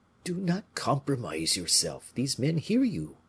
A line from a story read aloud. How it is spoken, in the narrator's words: said Monsieur de Gesvres in a low voice